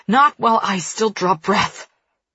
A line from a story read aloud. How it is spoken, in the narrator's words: He wheezes to emphasize his point